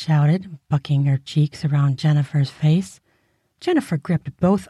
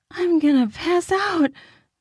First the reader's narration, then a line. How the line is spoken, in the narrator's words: Viv screamed